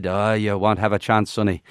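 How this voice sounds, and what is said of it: Put-on Scottish accent. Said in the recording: “I don't know why I'm doing a Scottish accent. I was supposed to be Irish”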